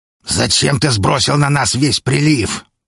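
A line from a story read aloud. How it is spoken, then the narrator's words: Growling. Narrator (Russian): прорычал Грелл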